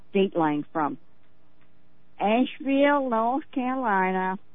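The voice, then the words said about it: Poor put-on Southern US accent. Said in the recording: “Pardon my lousy southern accent.”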